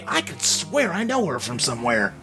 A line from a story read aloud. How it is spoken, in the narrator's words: you can hear him kind of mutter to Jenny